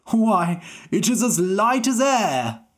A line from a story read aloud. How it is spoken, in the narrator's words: the king cried